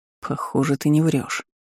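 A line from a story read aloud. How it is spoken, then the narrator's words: Muttering. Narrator (Russian): пробормотал Джорет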